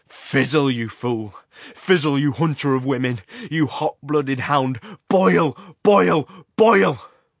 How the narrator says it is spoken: The gesticulating figure was shouting

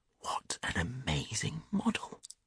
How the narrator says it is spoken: whispered Hughie

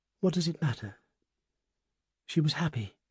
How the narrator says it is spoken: Another said quietly

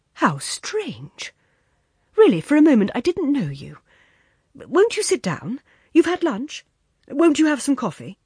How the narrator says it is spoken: he exclaimed

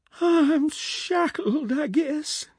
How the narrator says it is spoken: moaned

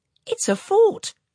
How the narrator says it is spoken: exclaimed Bertie

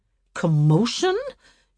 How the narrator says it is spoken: hotly resented

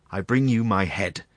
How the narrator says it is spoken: cried the commander of the lost battalion, pale and overcome

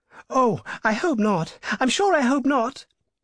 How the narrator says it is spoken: cried the two ladies

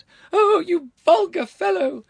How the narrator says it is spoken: she shrieked

